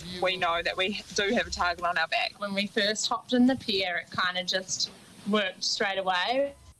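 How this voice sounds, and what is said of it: New Zealand accent. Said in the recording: “New Zealand accent of the week”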